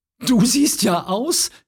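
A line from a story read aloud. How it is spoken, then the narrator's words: Giggling little girl. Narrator (German): kicherte die Kleine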